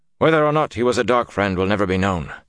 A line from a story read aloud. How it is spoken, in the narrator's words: Carradine said blandly